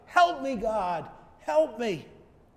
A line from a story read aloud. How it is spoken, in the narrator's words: he had no other choice but to shout